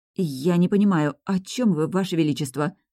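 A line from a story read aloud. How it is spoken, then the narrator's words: Trembling voice question. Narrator (Russian): спросила дрожащим голосом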